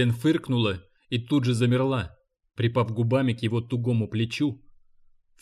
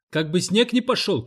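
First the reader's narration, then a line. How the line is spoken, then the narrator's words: Shouting. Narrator (Russian): крикнул Гарп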